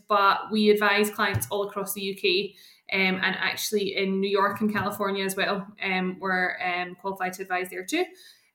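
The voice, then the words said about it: Scottish accent. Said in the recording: “Based in Scotland, you can tell by the accent”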